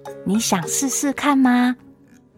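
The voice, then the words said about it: Soft quiet voice. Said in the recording (Chinese): “小声地问我”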